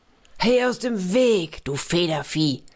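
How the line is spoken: Samurai shouting. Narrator (German): rief der Samurai

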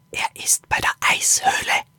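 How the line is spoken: Whisper. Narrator (German): flüsterte Axel Lilo zu

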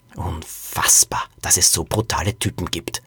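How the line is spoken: Growling. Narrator (German): knurrte Liselotte

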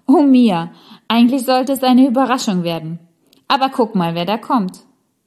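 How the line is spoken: Loud laughing. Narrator (German): Jetzt lachte Rosalie ganz laut und sagte

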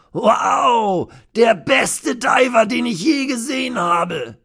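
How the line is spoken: Shouting. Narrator (German): schreit Ray

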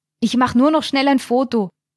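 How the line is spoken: Called out. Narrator (German): rief ihr Stefan zu

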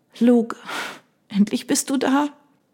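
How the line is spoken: Sobbing, trembling. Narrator (German): Ihr ganzer Körper bebte unter ihren Schluchzern

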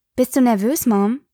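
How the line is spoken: Plain. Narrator (German): fragte Espen

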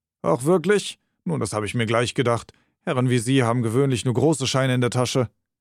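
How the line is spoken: Insolent, mocking. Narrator (German): Der Kerl nahm eine unverschämt spöttische Miene an und erwiderte

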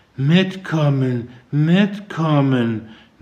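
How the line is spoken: Mumbling to herself. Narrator (German): nuschelte sie vor sich hin

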